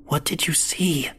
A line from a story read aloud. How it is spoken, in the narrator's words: I whispered